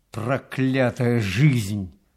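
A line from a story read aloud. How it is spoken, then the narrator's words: Grumble. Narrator (Russian): проворчал он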